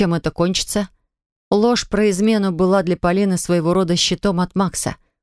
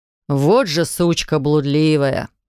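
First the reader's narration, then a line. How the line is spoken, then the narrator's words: Scoffing. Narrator (Russian): хмыкнул Виталик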